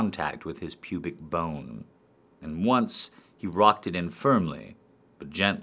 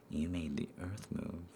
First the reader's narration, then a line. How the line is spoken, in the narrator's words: I whispered